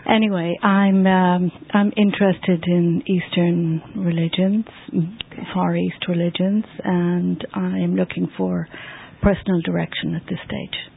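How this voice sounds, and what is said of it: Irish accent. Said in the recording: “I'm originally from Ireland ... that accent ... my accent always gives me away”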